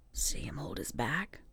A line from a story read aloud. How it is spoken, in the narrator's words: He whispered